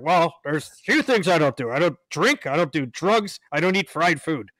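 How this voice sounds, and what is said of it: Imitated deep male voice. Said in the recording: “he's got that, you know, deep voice.”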